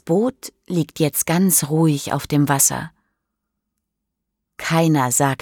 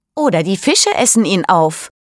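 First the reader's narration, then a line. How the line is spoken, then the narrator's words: Sudden call. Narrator (German): ruft plötzlich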